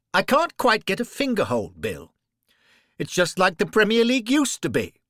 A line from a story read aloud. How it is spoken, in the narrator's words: Henry called out